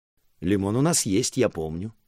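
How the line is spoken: Cheerful. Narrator (Russian): так же весело ответил я

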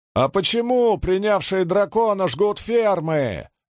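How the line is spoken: Shout from behind bushes. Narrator (Russian): выкрикнул кто-то из-за кустов

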